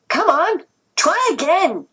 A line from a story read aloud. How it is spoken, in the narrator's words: shouted the taller of the two